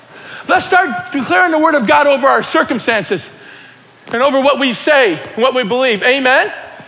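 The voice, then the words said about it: Yelling and screaming preacher. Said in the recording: “why I'm yelling and screaming? Because it's exciting.”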